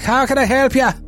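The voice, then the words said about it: Irish brogue accent. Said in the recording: “Just listen to that brogue. It could be none other than the notorious Irishman”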